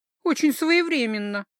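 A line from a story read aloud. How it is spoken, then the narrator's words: Irritated snort. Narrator (Russian): Раздраженно фыркнула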